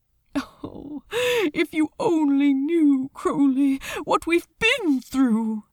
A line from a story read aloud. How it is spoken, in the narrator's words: he exclaimed suddenly, and Crowley startled slightly at the vehemence in his voice